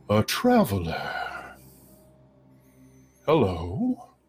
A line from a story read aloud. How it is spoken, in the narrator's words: it says in a very deep, resonant voice